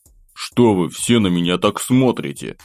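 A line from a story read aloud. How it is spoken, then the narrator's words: Displeased grumble. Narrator (Russian): недовольно проворчал я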